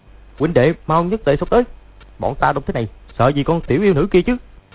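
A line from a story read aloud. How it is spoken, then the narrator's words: Shouting. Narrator (Vietnamese): Lộc Thanh Đốc quát lên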